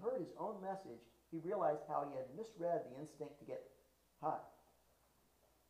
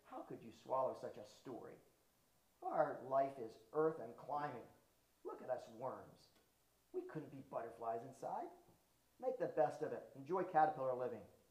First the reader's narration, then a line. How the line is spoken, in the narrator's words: A crawler sneered